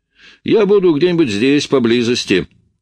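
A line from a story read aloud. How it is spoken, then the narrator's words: Called out after. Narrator (Russian): крикнул мне вслед Оуэнс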